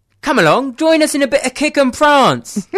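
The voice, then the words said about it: Put-on Cockney accent. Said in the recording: “do you have a Cockney accent that you can pull out of the bag? ... Give us your Cockney accent.”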